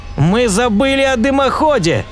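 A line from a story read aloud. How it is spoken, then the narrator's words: Shouting professor. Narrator (Russian): закричал профессор Кин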